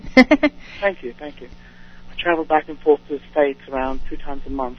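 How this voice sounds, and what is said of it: Sweet London English accent. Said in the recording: “I'm really from London ... We get that accent. That's a very sweet accent.”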